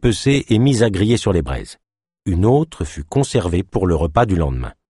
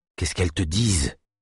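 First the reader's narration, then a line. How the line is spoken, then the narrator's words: Low-voiced question. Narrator (French): demanda Naya à voix basse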